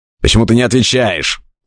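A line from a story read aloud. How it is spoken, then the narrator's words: Fierce bark. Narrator (Russian): свирепо рявкнул я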